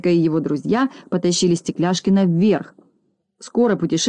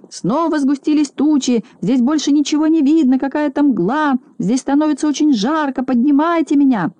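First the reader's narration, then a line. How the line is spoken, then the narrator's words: Shouting. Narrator (Russian): А Стекляшкин уже кричал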